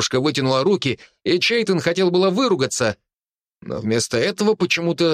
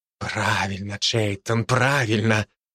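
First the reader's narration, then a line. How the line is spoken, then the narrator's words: Whispering. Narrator (Russian): нашептывал Джеймс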